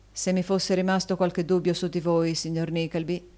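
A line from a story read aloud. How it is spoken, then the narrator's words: Plain. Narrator (Italian): disse l'altro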